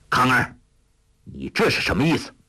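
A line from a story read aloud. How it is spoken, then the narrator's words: Stern shout. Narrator (Chinese): 邱处机厉声喝道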